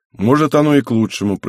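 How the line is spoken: Suddenly calm. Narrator (Russian): произнес он, как-то резко успокоившись

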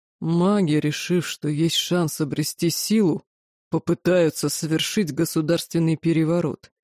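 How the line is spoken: Deep bass voice. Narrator (Russian): пробасил Сахарель

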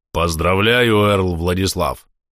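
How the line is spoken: Warm booming voice. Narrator (Russian): с искренней улыбкой прогудел Эйд

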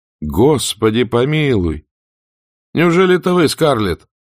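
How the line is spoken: Exclamation. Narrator (Russian): воскликнул он

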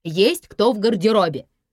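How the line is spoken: Sharp bark, like scolding pupils. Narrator (Russian): рявкнула Алла, как рявкала когда-то на беснующихся восьмиклассников

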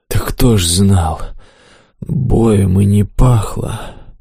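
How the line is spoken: Hoarse defensive boar. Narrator (Russian): Сипло оправдался кабан

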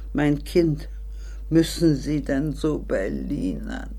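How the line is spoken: Soft, lovely voice. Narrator (German): sagte leise und schön

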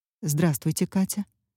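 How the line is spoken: Quiet, changed tone. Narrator (Russian): тихо и совсем уже другим тоном произнес полковник Гектор Борщев

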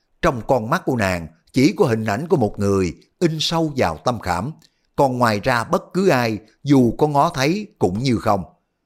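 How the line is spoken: Sighing. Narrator (Vietnamese): Đoàn Dự thở dài nói

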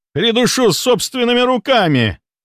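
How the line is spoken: Shouting. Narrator (Russian): кричал барон

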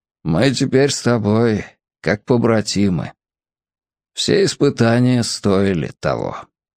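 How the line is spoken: Quiet. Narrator (Russian): он сказал тихонько

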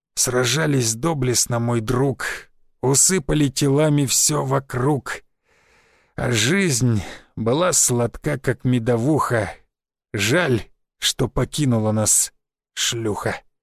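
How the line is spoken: Dying hoarse rasp. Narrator (Russian): Истекая кровью, он напоследок прохрипел

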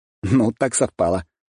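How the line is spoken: Chuckling. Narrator (Russian): хмыкнул я

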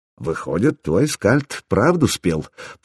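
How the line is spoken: King muttering. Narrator (Russian): пробормотал конунг

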